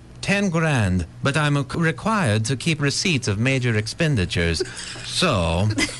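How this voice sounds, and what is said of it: Odd made-up French-Mexican accent. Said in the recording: “what kind of accent is that, anyway? It don't sound like nothing I've ever heard before ... I'd call it French-Mexican. Or Frexican”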